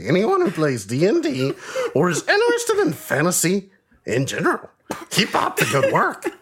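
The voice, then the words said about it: Yoda character voice. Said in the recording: “Was that a Yoda voice? ... It was. ... Okay, it was a Yoda voice. ... that definitely wasn't a Brooklyn accent, but it was great.”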